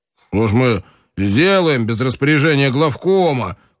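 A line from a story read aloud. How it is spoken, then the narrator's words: Shout. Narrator (Russian): крикнул Соколовский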